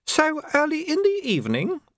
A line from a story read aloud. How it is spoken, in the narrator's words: said madam, and laughed again